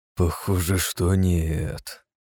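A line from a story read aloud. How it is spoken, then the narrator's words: Gloomy, through gritted teeth. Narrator (Russian): процедил хмуро князь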